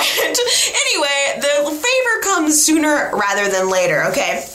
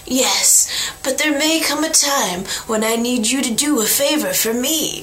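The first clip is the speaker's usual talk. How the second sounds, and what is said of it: Poor Godfather-style impression. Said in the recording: “That was a really bad, that was my Godfather impression. It was really bad.”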